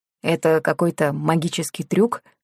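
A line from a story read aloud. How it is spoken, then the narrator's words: Plain question. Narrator (Russian): спросил Тео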